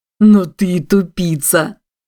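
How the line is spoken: Joyful laughing shout. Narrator (Russian): Радостно прокричал тот, что смеялся громче остальных

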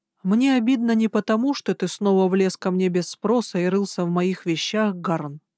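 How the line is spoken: Calm. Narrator (Russian): сказала я спокойно

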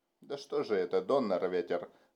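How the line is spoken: Grumbling. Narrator (Russian): ворчал Райнхард

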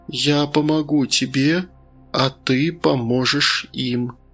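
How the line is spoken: Soft rustling voice. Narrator (Russian): мягко прошуршал голос

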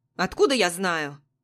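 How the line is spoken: Rude snapping. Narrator (Russian): Грубо огрызается она

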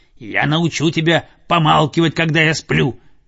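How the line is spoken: Growling. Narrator (Russian): прорычал Цезарь

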